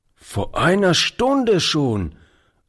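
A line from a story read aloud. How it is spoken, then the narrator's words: Old man calling. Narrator (German): rief der Alte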